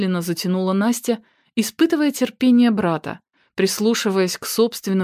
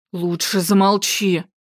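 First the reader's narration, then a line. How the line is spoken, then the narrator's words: Hissing. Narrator (Russian): прошипел Виктор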